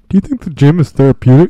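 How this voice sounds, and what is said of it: Imitates another person's voice. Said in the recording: “my you impression. It's not very. I'm working on it.”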